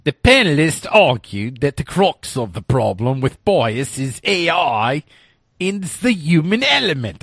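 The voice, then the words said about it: Weak attempt at Australian accent. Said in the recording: “That was my Australian accent I was trying there. I don't do that much very well.”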